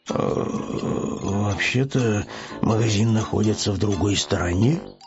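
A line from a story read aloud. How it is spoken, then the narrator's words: Muttered under breath. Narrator (Russian): пробормотал он вполголоса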